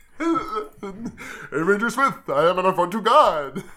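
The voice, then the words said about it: Yogi Bear cartoon voice impression. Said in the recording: “my Yogi impression with a boo-boo, or else I just lose it entirely”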